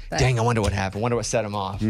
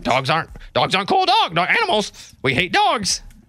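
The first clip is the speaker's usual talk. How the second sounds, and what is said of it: Imitating a parrot's voice. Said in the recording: “my parrot impression”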